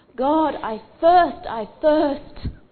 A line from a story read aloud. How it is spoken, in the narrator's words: cried out to God and said